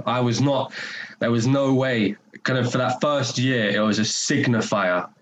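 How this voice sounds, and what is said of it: North London accent. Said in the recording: “my accent and the way that I speak is very much has not shifted one iota ... your North London accent ... My accent got stronger when I moved up.”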